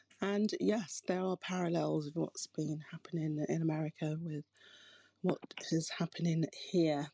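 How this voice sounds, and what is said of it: UK accent. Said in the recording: “Clearly, you can hear I have a UK accent.”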